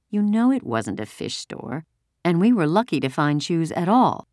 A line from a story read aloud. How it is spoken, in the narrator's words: Mama said soothingly